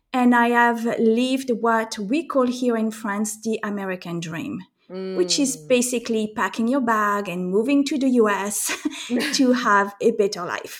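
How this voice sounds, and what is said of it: French-accented English. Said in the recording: “as you can tell from my accent, I am French”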